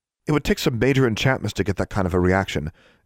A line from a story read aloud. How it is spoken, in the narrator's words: Anna said quickly, fearful of Alexandra's reaction